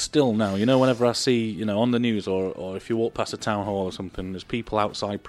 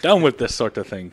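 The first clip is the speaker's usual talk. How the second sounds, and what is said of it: Bad put-on Irish accent. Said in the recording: “That's the worst Irish accent ever.”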